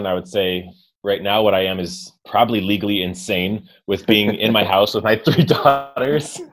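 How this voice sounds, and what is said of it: American accent. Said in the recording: “if you can't tell from my accent, I am American”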